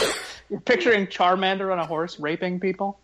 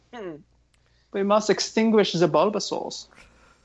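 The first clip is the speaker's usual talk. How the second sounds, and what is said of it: Put-on German accent. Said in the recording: “German accent.”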